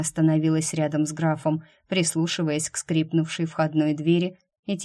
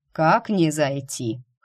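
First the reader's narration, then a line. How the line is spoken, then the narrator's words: Snorting. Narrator (Russian): хмыкнул Грег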